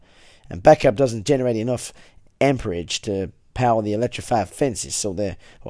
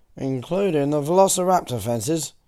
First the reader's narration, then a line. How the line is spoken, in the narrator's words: Arnold sighed